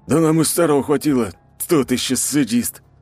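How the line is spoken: Through gritted teeth. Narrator (Russian): сквозь зубы проговорил мужчина

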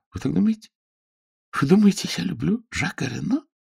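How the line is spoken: Half laughing, half crying. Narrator (Russian): то ли смеясь, то ли плача

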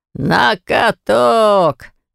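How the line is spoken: Booming commander's voice. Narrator (Russian): возвестил на всю округу Журик зычным голосом полководца

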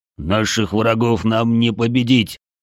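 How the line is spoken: Growl. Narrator (Russian): рыкнул Бедвар

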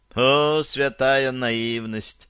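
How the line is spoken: Sigh. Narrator (Russian): вздохнул Майзл Нахман

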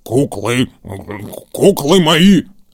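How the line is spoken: Grumbling. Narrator (Russian): проворчал он

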